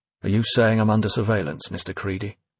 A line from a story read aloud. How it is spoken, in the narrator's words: Finch asked flatly, fed up now with Creedy's game-playing